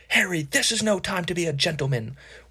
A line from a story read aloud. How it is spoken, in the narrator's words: Wood roared